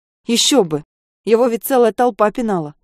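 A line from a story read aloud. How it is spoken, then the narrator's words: Angry smirk. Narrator (Russian): Зло усмехается Гуляев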